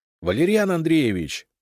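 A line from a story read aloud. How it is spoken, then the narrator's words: Shouting. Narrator (Russian): крикнул я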